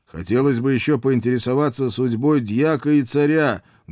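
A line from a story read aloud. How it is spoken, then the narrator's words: Loud yelling. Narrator (Russian): громко проорал я в бант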